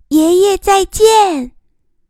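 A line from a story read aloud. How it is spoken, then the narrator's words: Crisp child's shout. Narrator (Chinese): 小孙子脆生生的喊着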